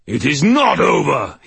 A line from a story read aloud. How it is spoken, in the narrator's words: he howled